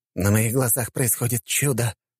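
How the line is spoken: Faint, fading murmur. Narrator (Russian): пробормотал барон, который уже почти совсем осел на пол и начал закатывать глаза

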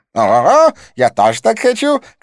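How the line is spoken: Shout. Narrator (Russian): крикнул близнец

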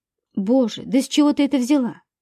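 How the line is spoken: Exclamation. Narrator (Russian): воскликнула я

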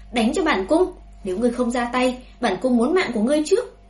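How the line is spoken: Furious loud shout. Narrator (Vietnamese): Hoàng hậu càng thêm giận tím mặt mày, lớn tiếng quát

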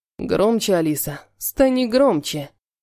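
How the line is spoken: Growling. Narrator (Russian): Рыкнул Халиль

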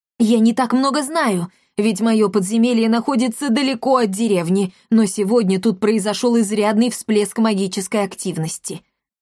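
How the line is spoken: Hurried report. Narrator (Russian): торопливо сообщила Амалия

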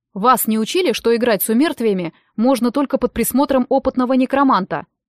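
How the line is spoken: Low deep voice. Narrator (Russian): спросил он низким, глубоким голосом

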